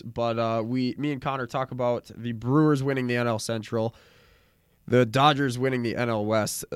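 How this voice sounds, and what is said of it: Sick-sounding voice. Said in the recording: “I'm still very sick, so I apologize for my voice.”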